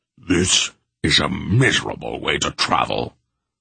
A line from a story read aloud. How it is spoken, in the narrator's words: Beric rumbled